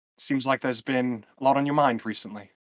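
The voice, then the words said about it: Female British accent. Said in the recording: “I'll just do the female British accent”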